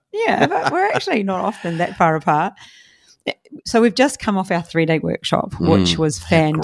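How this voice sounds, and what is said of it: Strained, hoarse voice. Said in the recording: “you might be able to tell from my voice. I've got a bit of voice strain.”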